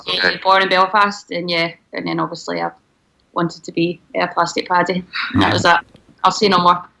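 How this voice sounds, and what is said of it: Strong Scottish accent. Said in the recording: “That's a very strong Scottish accent you have.”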